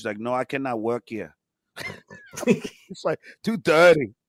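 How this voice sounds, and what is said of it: Attempted Russian accent. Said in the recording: “I can't do a Russian accent”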